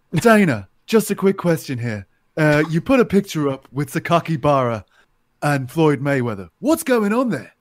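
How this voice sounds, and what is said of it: Imitates another person's accent. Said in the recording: “I'll do Oscar Willis's accent.”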